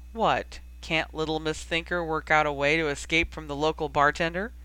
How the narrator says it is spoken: Hermione started to laugh

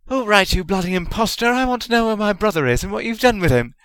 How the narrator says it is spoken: she cried

